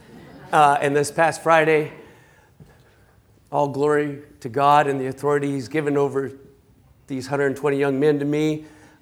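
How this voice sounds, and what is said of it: Slightly raspy voice. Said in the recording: “my voice is a little raspy, ... if I cough”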